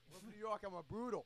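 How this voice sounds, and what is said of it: Poor fake New York accent. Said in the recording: “You can't pull off the fake accent, good... Yeah, I suck.”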